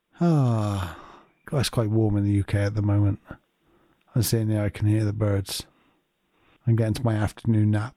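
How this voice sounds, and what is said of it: Slow, drowsy voice. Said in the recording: “You can tell my voice has slowed down.”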